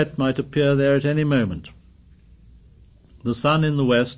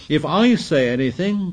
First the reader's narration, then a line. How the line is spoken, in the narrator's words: cried Piggy with bitter realism